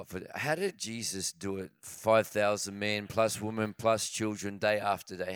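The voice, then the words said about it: Hoarse, strained voice. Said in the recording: “My voice is pretty shot”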